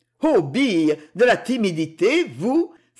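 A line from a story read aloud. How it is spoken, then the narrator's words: Laughing exclamation. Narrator (French): s'exclama Jacques en riant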